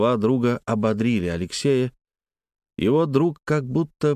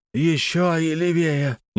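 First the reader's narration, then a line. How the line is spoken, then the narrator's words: Strained hoarse voice. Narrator (Russian): не своим голосом прохрипел рядом Петр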